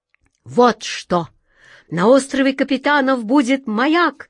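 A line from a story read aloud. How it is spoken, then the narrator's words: Wizard's joyful exclamation. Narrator (Russian): радостно воскликнул волшебник Алёша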